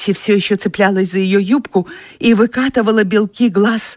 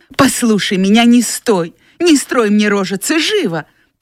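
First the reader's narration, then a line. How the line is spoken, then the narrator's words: Sharp scolding shout. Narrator (Russian): прикрикнула она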